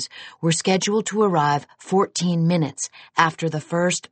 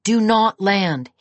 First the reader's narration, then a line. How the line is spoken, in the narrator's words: shouted